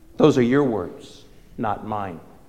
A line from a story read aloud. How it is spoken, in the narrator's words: Jesus said